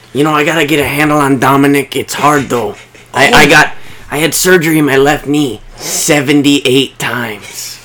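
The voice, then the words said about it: Imitates another person's voice. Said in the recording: “I also have a good Rey Mysterio... Junior. Very good impression.”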